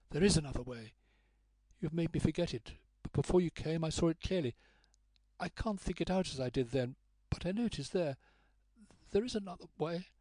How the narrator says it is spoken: her voice faltered

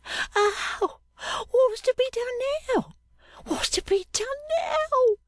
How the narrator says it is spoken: cried Mistress Affery, wringing her hands in this last uneasy dream of all

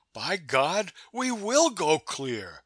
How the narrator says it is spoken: I cried

